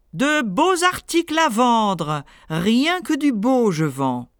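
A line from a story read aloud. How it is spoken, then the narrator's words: Shouting. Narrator (French): cria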